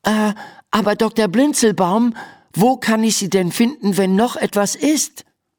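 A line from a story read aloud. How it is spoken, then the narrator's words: Calling after someone. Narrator (German): ruft sie ihm nach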